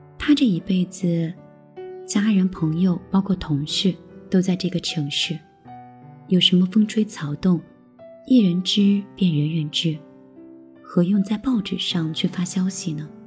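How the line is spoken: Joking. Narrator (Chinese): 开玩笑说

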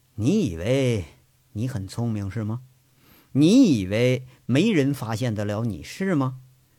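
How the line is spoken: Slow, tearful, composed. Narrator (Chinese): 杨伟抹了一把泪，眼睛红的吓人，平复一下心境，缓缓的说着

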